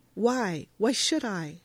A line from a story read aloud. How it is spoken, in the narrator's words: she turns around and earnestly says